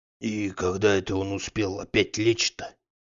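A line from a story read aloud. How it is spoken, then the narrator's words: Grumbling. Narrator (Russian): ворчал Захар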